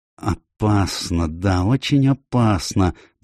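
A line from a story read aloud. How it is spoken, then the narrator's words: Muttering. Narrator (Russian): бормотал он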